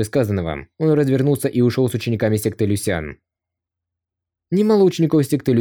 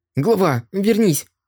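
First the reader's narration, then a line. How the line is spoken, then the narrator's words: Angry shout. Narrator (Russian): Тан Сусу гневно крикнула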